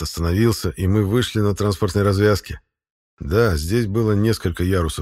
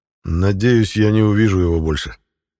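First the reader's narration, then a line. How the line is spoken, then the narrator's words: Grumbling. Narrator (Russian): проворчал я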